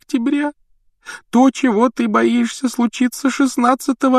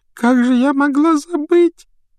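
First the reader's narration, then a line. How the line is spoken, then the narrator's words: Sobbing self-reproach. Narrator (Russian): всхлипывая, корила себя Лаванда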